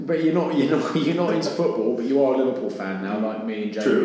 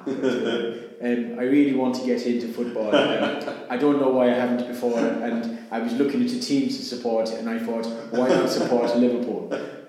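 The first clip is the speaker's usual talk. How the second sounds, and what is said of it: Put-on Irish accent. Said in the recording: “I'm going to do my Irish accent now.”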